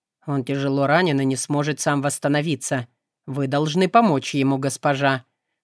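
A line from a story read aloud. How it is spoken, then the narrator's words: Stern reproachful servant. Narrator (Russian): строго произнес слуга, будто упрекая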